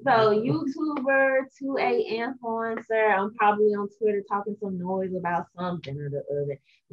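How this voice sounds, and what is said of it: Gorgeous accent. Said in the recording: “Her accent is so gorgeous.”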